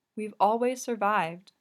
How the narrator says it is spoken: she says

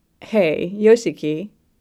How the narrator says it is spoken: he says

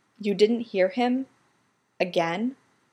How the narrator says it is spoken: Stiles says quietly

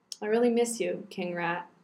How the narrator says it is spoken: I murmured

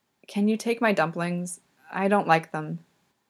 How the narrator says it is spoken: Yuri whispers to him

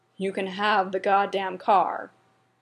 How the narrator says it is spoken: Derek growled

